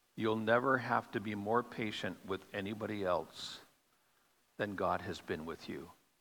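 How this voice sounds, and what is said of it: Slow, deliberate speech. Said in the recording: “say it slowly.”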